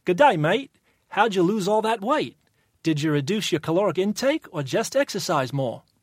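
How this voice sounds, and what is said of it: Put-on Australian accent. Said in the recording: “what kind of accent am I attempting? ... Well, it's Australian”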